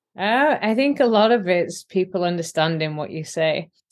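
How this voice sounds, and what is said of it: Yorkshire English accent. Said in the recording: “not lose my Yorkshire accent”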